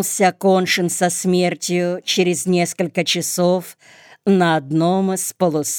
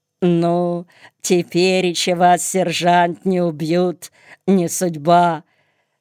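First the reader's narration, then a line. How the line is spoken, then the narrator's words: Attempted giggle. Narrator (Russian): сказавший попытался хихикнуть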